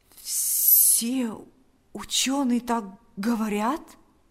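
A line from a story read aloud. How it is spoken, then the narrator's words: Trembling voice. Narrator (Russian): спросил Павел дрогнувшим голосом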